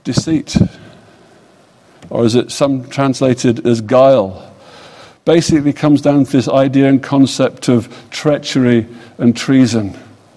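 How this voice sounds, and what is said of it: British English accent. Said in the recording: “as you all know from my accent, I don't come from these parts. I come from the United States of Kingdom of England ... Great Britain”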